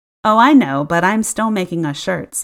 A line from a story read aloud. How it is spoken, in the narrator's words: I laughed